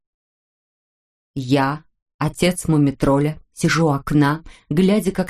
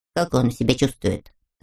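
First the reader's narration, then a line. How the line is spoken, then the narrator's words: Plain. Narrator (Russian): спросил муми-тролль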